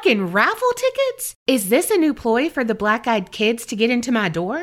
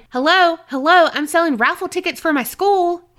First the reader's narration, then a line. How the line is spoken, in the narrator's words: yelling